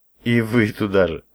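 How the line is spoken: Laughing. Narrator (Russian): рассмеялся

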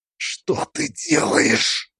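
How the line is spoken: Hissing. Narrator (Russian): прошипела Лидия, увидев оружие в моей руке

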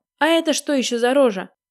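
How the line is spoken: Startled shout. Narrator (Russian): увидев собственную физиономию, закричал

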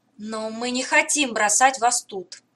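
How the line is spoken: Passionate exclamation. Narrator (Russian): горячо воскликнула Мира

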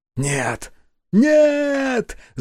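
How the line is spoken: Yelling. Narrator (Russian): заорал Руфера

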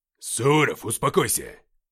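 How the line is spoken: Barked. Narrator (Russian): рявкнул Уфимцев

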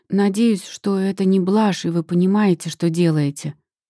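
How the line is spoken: Plain. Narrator (Russian): говорит она

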